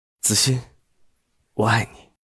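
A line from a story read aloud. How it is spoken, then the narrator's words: Hoarse. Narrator (Chinese): 哑声道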